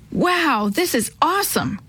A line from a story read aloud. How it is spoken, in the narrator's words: Chris exclaimed when he saw the falls